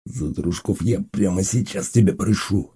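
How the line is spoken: Hissing bandit. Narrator (Russian): зашипел бандит

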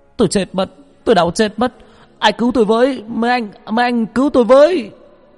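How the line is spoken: Screaming in pain. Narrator (Vietnamese): tiếng gào thét đau đớn

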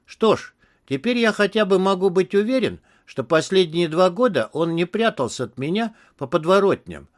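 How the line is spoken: Plain. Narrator (Russian): сказал Тони

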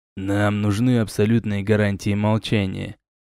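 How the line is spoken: Leader, quiet and serious. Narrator (Russian): тихо и серьезно сказал лидер

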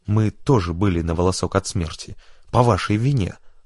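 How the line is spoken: Plain. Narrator (Russian): сказал штурман Амаду

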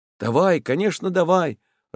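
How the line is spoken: Joyful agreement. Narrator (Russian): радостно соглашался новичок

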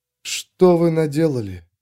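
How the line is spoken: Whisper. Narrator (Russian): прошептала она

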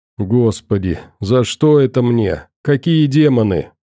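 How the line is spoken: Moaning. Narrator (Russian): простонал Мишель

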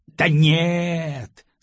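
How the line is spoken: Regretful drawl. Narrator (Russian): с сожалением протянул Жуков

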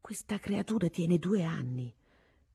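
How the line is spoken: Quiet voice. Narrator (Italian): mi disse la Lo Savio sottovoce

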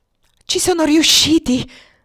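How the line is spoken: Choked, overwhelmed exclamation. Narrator (Italian): esclamò Alex con voce strozzata e un folle desiderio di gridare fino a perdere la voce

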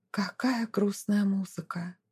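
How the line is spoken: Surprised whisper. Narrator (Russian): французская горничная удивленно шептала

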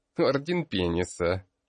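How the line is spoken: Snide giggle. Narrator (Russian): произнес Авсан и ехидно захихикал

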